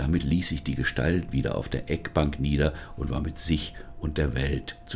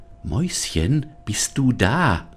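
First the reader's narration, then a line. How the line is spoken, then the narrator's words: Cautious call. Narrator (German): rief sie vorsichtig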